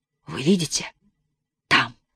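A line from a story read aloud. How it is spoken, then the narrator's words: Whispered question. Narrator (Russian): шепотом спросил Егор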